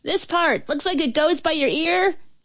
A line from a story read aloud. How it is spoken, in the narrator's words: yelled